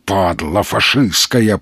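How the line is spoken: Growled. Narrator (Russian): прорычал он

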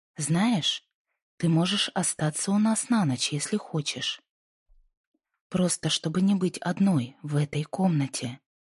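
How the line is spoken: Soft woman's offer. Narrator (Russian): предложила она мягко

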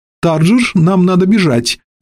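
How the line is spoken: Exclaiming. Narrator (Russian): воскликнул сэр Пласс

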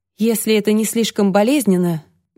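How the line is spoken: Soft question. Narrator (Russian): мягко спросила Алексия

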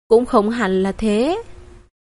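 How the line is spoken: Quiet. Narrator (Vietnamese): Trang Nghiêm nhỏ giọng ừ một tiếng

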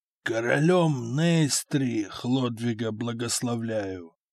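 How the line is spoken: Weak, frail voice. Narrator (Russian): слабым голосом сказал исхудавший Дагоберт

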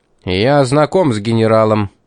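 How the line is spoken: Harsh bark. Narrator (Russian): рявкнул Пит

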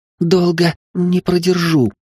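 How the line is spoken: Strained, forced out. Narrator (Russian): выдавила Мина

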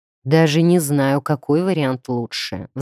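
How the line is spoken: Sighing. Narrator (Russian): вздохнул Крастен

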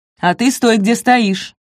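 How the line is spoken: Officer barking. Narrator (Russian): рявкнул офицер

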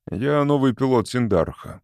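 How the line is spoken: Cold. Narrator (Russian): холодно сказал Валанд

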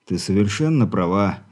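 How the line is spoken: Sighing. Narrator (Russian): вздохнул Игорь

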